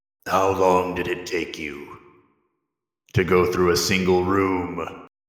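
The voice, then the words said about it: Performs a fantasy character's voice. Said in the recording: “recognize it instantly as the Lord Keeper. And we'll see if I can do that voice”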